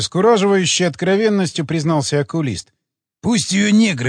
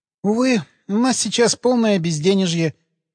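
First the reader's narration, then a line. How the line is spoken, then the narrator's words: Sad sigh. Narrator (Russian): печально вздохнула Людочка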